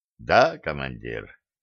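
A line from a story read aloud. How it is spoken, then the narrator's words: Quiet reply. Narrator (Russian): негромко ответил седьмой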